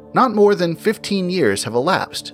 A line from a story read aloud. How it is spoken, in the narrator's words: said he